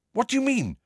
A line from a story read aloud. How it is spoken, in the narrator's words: said Harry quickly